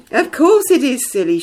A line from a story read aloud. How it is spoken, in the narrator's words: she laughed